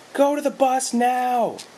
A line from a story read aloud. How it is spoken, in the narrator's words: Brenda screamed